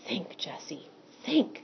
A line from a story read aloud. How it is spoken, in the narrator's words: whispered to herself